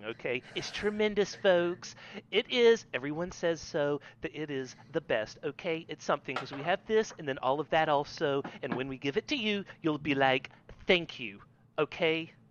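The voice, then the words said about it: Imitates a president's voice. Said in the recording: “That's my president impression.”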